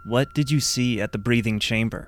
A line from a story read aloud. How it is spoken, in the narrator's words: I asked